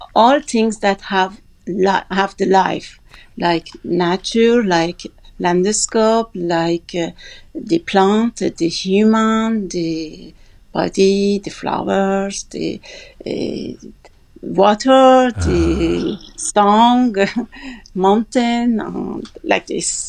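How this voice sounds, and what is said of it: French-accented English. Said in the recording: “you have that charming French accent ... everybody wants your accent. It's beautiful.”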